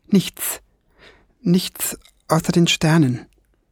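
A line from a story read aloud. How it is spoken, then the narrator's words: Trembling voice. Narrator (German): antwortete er mit zittriger Stimme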